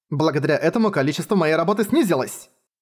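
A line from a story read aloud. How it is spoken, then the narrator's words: Irritated reply. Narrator (Russian): Клаус раздраженно ответил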